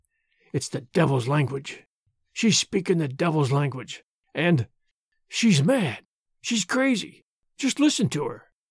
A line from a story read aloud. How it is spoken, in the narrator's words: the onlookers whispered to each other